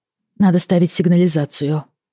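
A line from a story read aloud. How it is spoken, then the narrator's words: Sigh. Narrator (Russian): вздохнула я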